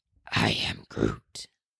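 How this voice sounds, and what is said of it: Groot impression. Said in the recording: “your best Groot impression”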